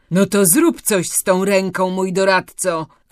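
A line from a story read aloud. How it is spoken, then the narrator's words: Furious shout. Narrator (Polish): krzyknął wściekły Baltazar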